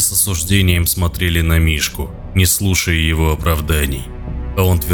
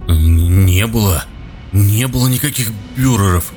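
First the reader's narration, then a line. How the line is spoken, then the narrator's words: Stammering mutter. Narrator (Russian): запинаясь, бормотал счастливчик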